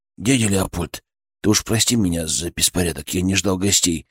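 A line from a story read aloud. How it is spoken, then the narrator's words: Mumbled. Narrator (Russian): пробормотал он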